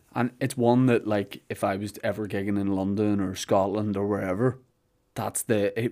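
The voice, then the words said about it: Northern Irish accent. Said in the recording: “When people heard your accent and knew you're from Northern Ireland”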